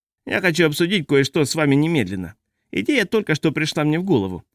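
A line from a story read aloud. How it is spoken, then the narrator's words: Grating voice. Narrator (Russian): сказал Нильсон своим скрыжащущим голосом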